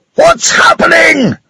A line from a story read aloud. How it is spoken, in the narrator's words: screamed Mr